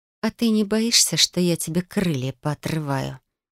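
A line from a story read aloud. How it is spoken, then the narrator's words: Sinister whisper. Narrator (Russian): Зловещим шепотом поинтересовалась я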